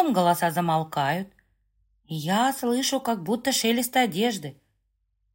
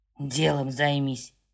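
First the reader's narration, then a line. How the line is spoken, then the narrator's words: Quiet hoarse male voice. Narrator (Russian): хрипит тихо мужчина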